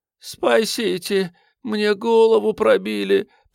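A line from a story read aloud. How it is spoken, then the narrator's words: Dazed groan. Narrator (Russian): простонала приходящая в себя хозяйка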